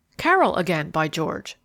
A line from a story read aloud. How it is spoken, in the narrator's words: exclaimed the attorney